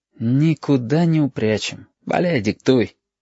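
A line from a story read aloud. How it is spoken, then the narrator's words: Sighing. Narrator (Russian): вздохнул Абов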